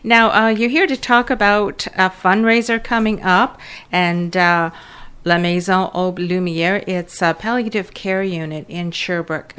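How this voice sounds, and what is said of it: Non-native accent in English. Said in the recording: “Excuse my accent in English.”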